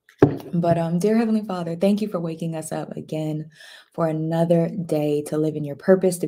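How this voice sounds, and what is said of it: Raspy, not yet warmed-up voice. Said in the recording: “y'all get a lot of raspiness out of my voice because I haven't even warmed up my voice yet ... my voice is always like, eh”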